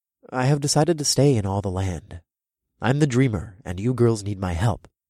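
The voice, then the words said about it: Serious voice. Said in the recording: “in a serious voice”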